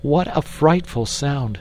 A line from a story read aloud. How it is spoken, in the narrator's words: cried Jane